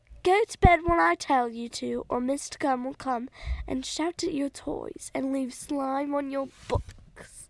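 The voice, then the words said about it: British accent. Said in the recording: “That was a British accent.”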